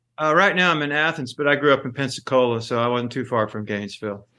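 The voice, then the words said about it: Strong Southern American accent. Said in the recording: “beautiful, strong Southern accent”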